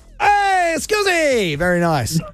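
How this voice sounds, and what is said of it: Put-on Italian accent. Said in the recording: “It's Italian. ... I'm not sure if I'm allowed to do that voice”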